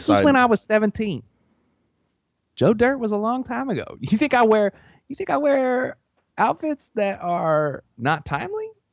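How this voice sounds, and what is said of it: Put-on Southern accent. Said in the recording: “you're gaining a Southern accent.”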